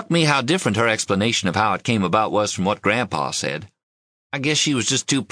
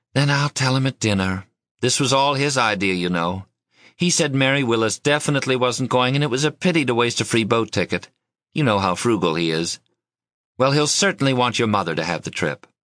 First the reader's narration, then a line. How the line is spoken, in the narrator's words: Given a long sigh, she said